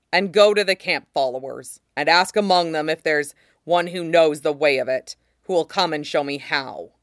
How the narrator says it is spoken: Rob added savagely

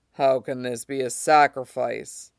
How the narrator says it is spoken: laughed darkly

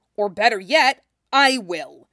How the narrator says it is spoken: Jason growled

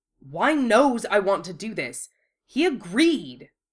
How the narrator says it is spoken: Wu Fei barked

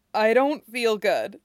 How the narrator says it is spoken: says, trying to hold back the sobs

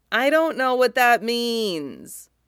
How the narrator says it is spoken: he whines, petulant

